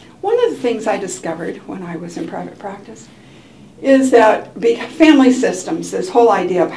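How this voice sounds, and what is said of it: Usual voice. Nothing is said of it.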